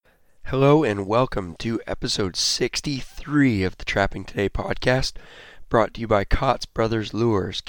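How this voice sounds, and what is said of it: Hoarse, worn-out voice. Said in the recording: “As you can hear, my voice is completely shot”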